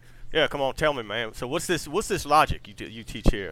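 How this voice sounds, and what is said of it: Put-on accent for joke character. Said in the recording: “I should probably do an accent.”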